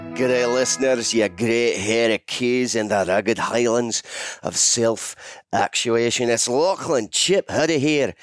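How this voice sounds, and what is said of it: Put-on Scottish accent. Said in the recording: “I'll drop the Scots accent now”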